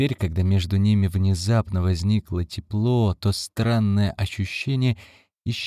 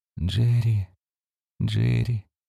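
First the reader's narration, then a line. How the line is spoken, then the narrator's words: Quiet repeating, woman. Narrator (Russian): тихо повторяла женщина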